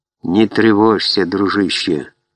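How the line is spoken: Soft gentle voice. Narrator (Russian): мягко произнес волк

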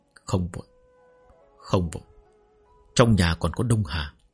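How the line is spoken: Muttering to himself. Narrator (Vietnamese): ông tự lẩm bẩm

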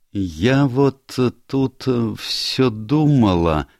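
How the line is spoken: Slow, musing. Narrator (Russian): медленно произнесла Фрэнсис

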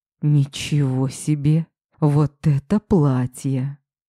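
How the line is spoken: Stunned exhale. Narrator (Russian): потрясенно выдохнул он

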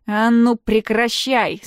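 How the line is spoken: Stern. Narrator (Russian): строго говорит он

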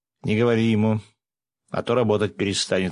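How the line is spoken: Snorting. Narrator (Russian): хмыкнул я

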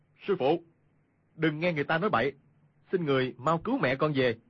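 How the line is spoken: Raised voice calling. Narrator (Vietnamese): cao giọng gọi

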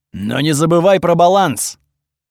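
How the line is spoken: Deafeningly loud. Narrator (Russian): Получилось очень громко, настолько оглушительно

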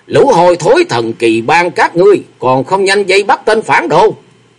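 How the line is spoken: Loud shout. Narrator (Vietnamese): Triệu Tâm Cô Nhân thấy quát lớn

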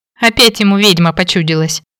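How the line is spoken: Giggling. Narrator (Russian): хихикнула я

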